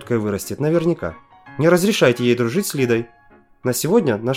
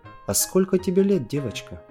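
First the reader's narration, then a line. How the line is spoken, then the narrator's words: Quiet woman's question. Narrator (Russian): тихо спросила жена Игоря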